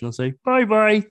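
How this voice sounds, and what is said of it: Poor Kermit the Frog impression. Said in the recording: “my best Kermit impression ... That was horrible.”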